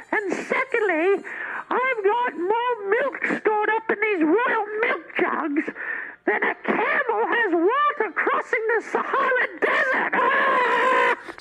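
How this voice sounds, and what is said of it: Screaming loudly. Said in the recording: “Why are you screaming? ... I shouldn't scream.”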